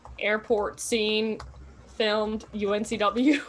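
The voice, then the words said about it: Robot voice. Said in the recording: “I'm doing, like, a robot voice.”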